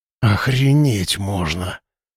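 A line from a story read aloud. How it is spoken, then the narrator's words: Forced out, stunned. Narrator (Russian): наконец выдавил из себя Тимуров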